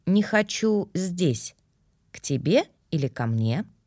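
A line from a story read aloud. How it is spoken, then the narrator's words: Calm and serious. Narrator (Russian): Алистер ответил, спокойно и серьезно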